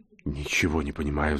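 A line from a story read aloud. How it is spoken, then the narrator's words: Strangled whisper. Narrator (Russian): сдавленно прошептал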